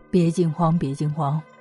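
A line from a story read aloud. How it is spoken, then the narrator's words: Hearty laughter. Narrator (Chinese): 镇元大仙听了之后，大笑道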